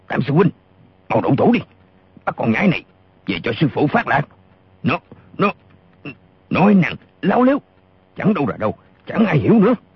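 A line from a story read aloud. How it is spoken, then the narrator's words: Furious loud shout. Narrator (Vietnamese): Gã lùng càng giận điên lên, y quát to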